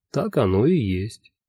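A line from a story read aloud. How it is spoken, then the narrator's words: Calm agreement. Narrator (Russian): спокойно согласился Лонли Локли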